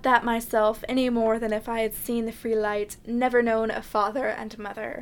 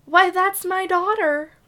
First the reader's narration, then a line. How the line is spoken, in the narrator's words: cried